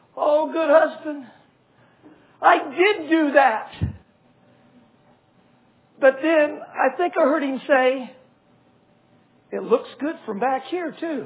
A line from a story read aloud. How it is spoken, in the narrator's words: she really wailed